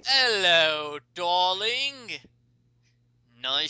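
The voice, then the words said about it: Bad put-on accent. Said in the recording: “Why do you have a bad accent? ... why do you have a bad accent, sir?”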